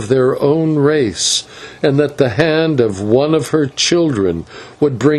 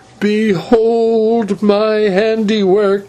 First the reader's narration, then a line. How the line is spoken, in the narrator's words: she cried